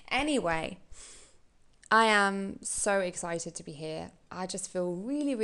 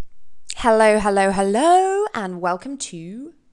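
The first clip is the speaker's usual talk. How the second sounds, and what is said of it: Put-on fancy presenter voice. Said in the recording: “I don't know why I'm doing this voice... I sound like an idiot when I use that, but you know what? It makes me feel fancy.”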